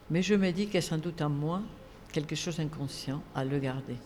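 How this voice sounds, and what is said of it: Southern French regional accent. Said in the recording (French): “cet accent qui, euh, quand je vais à Toulouse, il ne s'entend pas. Quand je vais à Marseille, il ne s'entend pas. À Bordeaux, à peine. ... tu as toujours un accent.”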